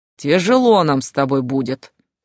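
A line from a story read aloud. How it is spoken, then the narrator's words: Skeptical grumble. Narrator (Russian): скептично проворчал Котейка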